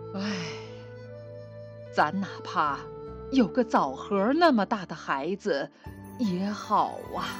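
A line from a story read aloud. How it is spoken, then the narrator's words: Sighing. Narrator (Chinese): 他们常常叹着气说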